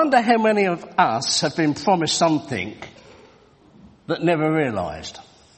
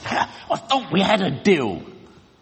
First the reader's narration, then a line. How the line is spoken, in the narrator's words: the groom pulled the vicar aside and he hissed